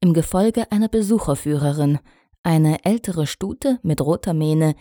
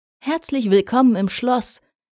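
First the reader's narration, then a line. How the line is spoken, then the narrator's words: Called out in greeting. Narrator (German): rief Cadence ihnen entgegen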